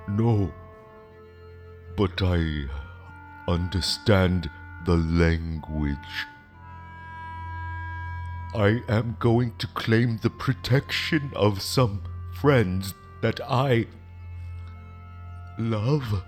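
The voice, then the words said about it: Foreign-sounding accent. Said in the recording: “Your accent. Are you from here?”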